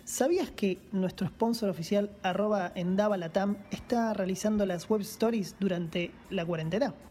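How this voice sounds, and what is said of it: Sultry announcer voice. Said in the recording (Spanish): “voz de locutor ... ¿qué, es esta voz? ... soy muy sexy ... irradiar tanta sensualidad”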